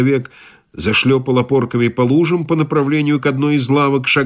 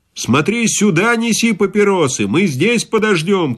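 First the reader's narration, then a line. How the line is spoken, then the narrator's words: Shout after someone. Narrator (Russian): крикнул я ему вслед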